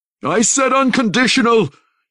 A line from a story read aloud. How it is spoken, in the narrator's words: he shrieked